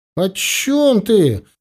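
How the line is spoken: Involuntary exclamation. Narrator (Russian): не удержавшись, воскликнул Мозайка

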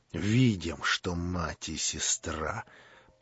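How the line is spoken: Through clenched teeth. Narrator (Russian): процедил сквозь зубы Рогожин

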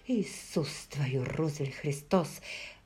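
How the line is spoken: Muttered under breath. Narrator (Russian): бормоча себе под нос

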